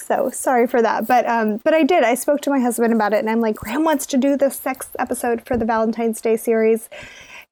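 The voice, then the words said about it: Hoarse, sore-throated low voice. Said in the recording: “apologize for my voice. I have a little bit of a sore throat just doing this intro. So apologies for my sexy voice that my children actually call my creepy old lady voice.”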